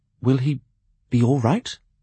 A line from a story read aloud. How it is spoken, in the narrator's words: he asked anxiously